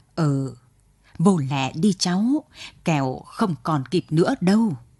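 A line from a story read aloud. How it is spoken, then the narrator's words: Choked with emotion. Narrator (Vietnamese): Tư thêm nghẹn ngào bảo Trơn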